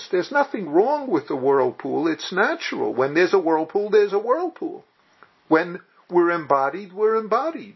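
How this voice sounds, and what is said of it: New York Yiddish accent. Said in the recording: “when I speak with a New York Yiddish accent, that's just how I speak.”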